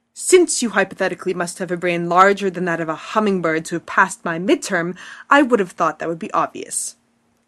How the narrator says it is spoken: he snaps

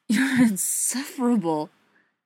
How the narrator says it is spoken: Feely gasps into his mouth

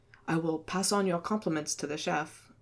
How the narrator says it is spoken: he muttered

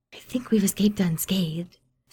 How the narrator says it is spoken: Steed whispered

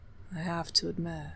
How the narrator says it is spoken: Fitzroy added, in a low voice that made Cleofer's skin prickle

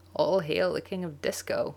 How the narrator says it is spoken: John croaks

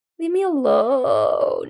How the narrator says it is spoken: he moans helpfully

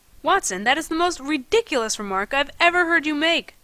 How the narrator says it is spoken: I exclaimed

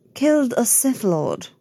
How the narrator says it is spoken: says, a little irritably

